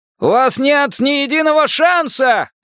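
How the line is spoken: Bold heroic shout. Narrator (Russian): кричал он, видя себя бесстрашным лос-анджелесским полицейским Джо Фрайди

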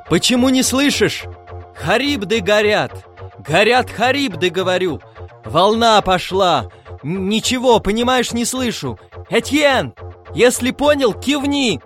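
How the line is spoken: Impatient shouting. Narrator (Russian): Пагава и нетерпеливо кричал

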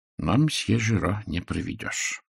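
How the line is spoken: Muttered. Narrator (Russian): пробормотал Пуаро

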